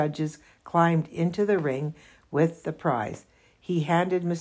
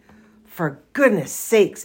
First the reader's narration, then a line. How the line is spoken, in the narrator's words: bellowed Mr